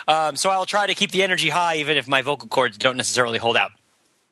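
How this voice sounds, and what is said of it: Slightly hoarse, husky voice. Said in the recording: “My voice is a little bit hoarse today because I was cheering at the football game on Saturday. So if I seem a little bit huskier than usual”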